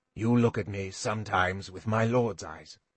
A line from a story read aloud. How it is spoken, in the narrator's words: he said quietly